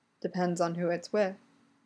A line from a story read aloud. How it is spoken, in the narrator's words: Derek whispers, basking in the warm glow Styles is radiating